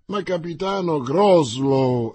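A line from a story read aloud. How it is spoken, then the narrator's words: Exclamation. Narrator (Italian): esclamò D'Artagnan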